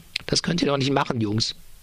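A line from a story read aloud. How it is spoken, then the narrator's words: Stammering. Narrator (German): stammelt Richter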